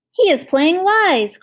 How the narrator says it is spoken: cried the will-o'-the-wisps

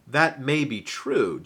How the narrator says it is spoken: Jesus replied

